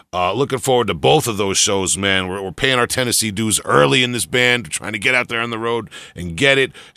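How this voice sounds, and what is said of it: Long Island accent. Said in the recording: “my Long Island accent”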